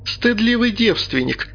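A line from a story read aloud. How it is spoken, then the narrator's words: Squeezed out through laughter. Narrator (Russian): сквозь смех выдавила она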